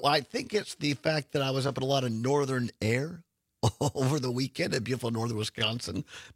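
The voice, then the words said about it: Slightly rough, hoarse voice. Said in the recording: “my voice is a little rough.”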